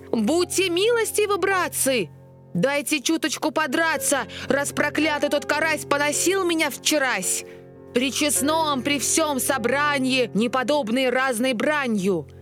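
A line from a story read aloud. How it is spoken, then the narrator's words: Long shouting. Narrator (Russian): Долго Ёрш еще кричал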